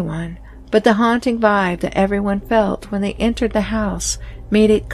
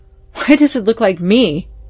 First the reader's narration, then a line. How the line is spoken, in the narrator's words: exclaimed fearsomely